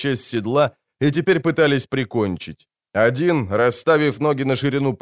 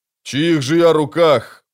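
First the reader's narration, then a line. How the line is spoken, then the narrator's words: Boomed muffled from helmet. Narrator (Russian): прогудел он из глубин шлема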